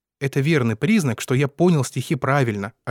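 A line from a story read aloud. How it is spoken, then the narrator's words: Plain. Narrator (Russian): ответила она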